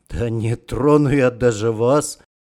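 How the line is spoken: Snorting. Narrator (Russian): хмыкнул Романов

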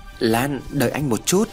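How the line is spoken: Stammering, trembling. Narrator (Vietnamese): Hùng cất tiếng lắp bắp, giọng run rẩy

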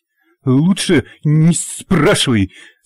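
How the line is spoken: Slight stutter. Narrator (Russian): слегка заикаясь, вслух ответил Нанос

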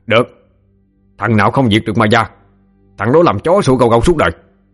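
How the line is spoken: Angry shout. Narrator (Vietnamese): Trần Tam cũng giận, hắn vỗ ngực bang bang mà quát

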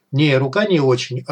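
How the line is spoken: Snorting, dismissive. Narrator (Russian): хмыкнул я

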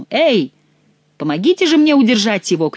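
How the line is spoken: Shouted. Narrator (Russian): крикнул Генрих

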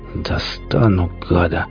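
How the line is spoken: Hoarse rasp. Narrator (Russian): прохрипел

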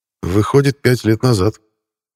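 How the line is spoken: Sad. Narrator (Russian): печально сказал Макс

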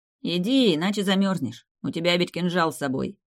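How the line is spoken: Amused snort. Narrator (Russian): хмыкнул Шут

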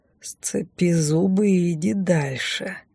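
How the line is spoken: Strained, through gritted teeth. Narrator (Russian): натянуто улыбаясь, процедил он

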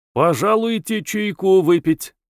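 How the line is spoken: Sonorous male voice. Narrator (Russian): предложил он звучным голосом

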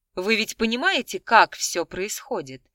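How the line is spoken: Calm, even tone. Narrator (Russian): Не меняя тона, спокойно произнесла она

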